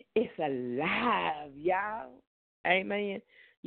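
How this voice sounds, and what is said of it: Put-on Southern accent. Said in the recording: “that's my southern accent”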